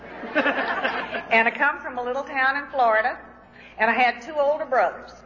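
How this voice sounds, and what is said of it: Southern American accent. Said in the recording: “I don't speak English, I speak Southern.”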